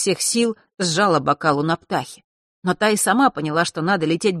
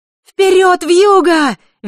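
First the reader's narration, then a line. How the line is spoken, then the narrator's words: Cheerful child's shout. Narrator (Russian): весело закричала девочка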